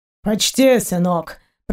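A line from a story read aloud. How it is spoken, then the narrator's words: Pirate's grumble. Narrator (Russian): проворчал пират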